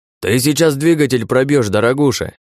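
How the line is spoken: Shouting over city noise. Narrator (Russian): Перекрывая гул и шум надвигающегося на них никогда не спящего города, прокричал Грибовский

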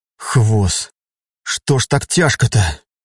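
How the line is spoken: Breathy exhale. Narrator (Russian): выдохнул Айден

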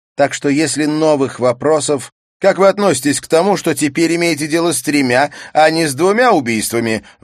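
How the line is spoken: Distant shout. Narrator (Russian): выкрикнул журналист из дальнего конца зала

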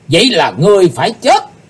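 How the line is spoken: Loud group shout. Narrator (Vietnamese): 12 vị sứ giả Hải Âu quát to

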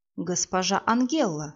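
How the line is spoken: Insinuating smooth voice. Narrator (Russian): вкрадчиво молвил маг

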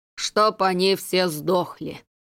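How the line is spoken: Powerful bass proclamation. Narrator (Russian): могучим басом провозгласил

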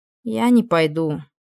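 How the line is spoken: Melancholy sigh. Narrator (Russian): с тоской вздохнула Ниида

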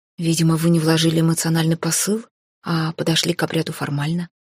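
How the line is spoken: Calm explanation. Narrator (Russian): спокойно пояснил Хейга

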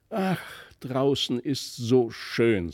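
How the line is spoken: Sighing to himself. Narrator (German): seufzte in sich hinein

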